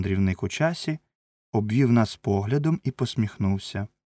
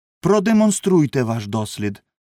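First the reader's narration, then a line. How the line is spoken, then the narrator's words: Impatient exclamation. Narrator (Ukrainian): вигукнув Філбі, починаючи вже нетерпеливитися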